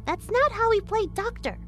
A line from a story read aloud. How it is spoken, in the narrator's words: Sarah chirped out